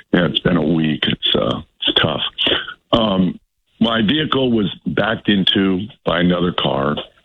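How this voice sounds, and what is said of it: Hoarse, strained voice. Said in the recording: “my terrible laryngitis”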